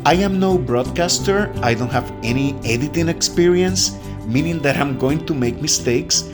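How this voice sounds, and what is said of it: Speaks with a noticeable accent. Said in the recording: “this beautiful accent of mine can get more noticeable”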